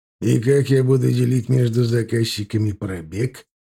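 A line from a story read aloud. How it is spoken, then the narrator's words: Snide question. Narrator (Russian): ехидно спросил Яковлев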